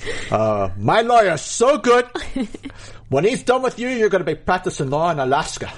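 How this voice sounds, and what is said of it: Movie gangster character impression. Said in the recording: “can you do a Tony Montana impression?”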